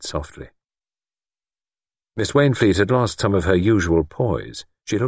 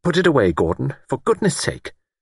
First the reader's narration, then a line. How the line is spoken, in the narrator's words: Miss Wainfleet said sharply